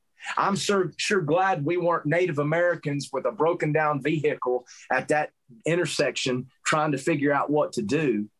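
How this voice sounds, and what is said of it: Southern American accent. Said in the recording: “You only have to know that by me opening my mouth. I can't hide the fact that I'm not from Montana because of my southern accent.”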